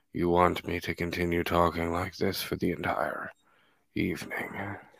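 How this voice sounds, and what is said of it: Deep, soft ASMR-style voice. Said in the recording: “I have that deep ASMR voice.”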